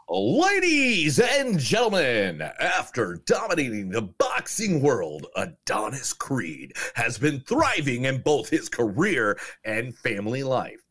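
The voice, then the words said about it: Boxing announcer voice. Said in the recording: “my boxing voice”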